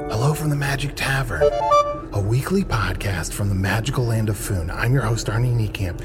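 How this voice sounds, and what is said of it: Whispering. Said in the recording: “I'm whispering a little bit, and that's not the general tone of the podcast”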